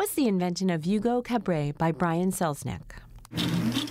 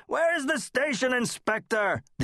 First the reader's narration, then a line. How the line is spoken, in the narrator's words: the old man yelled down the hallway again